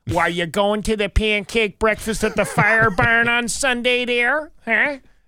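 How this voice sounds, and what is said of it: Put-on Great Lakes regional accent. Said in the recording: “they talk like this all the time ... That accent exists all over the Great Lakes”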